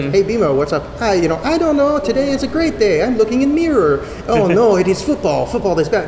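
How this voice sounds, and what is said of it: Rushed put-on old Korean woman accent. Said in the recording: “Your old lady Korean accent sounds kind of like a Mexican accent ... I was just trying to rush through it because in no way was I going to get it right”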